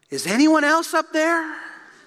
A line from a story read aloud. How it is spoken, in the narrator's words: after a few moments of pause, he shouted out